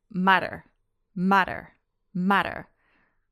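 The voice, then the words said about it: American accent, flapped T. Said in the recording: “Try saying it in an American accent”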